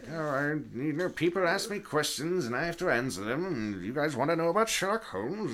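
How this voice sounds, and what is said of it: Impression of Arthur Conan Doyle. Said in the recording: “That was a pretty good impression, though ... pretty good ... that was spot on”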